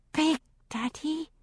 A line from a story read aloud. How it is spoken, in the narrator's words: he whispered